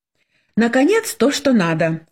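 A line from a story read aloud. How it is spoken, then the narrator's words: Joyful exclamation. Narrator (Russian): радостно воскликнула Светлана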